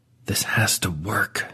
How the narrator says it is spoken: Dewey says, the words coming out in a barely audible hiss

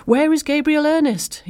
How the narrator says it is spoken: almost screamed

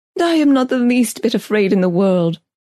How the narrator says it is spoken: I cried through hot tears

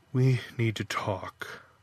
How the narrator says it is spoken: Grimly, she told him

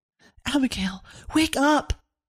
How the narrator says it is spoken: Severin whispering as loudly as she could

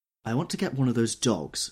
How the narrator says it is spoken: she said earnestly

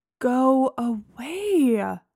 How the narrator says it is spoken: I moaned

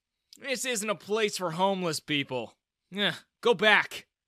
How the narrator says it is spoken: sneered

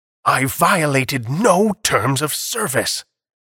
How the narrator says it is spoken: Atwater shouted angrily

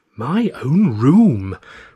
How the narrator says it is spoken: Rayner exclaimed

